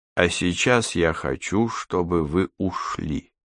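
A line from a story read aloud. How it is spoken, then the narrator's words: Calm, with faint sigh. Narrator (Russian): Том едва слышно вздохнув, спокойно сказал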